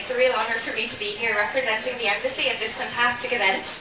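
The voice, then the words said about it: Irish accent. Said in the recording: “that beautiful Irish accent”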